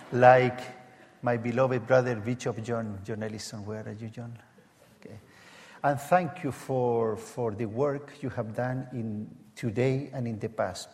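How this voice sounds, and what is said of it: Strong Latin American accent. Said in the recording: “my strong Latin American accent.”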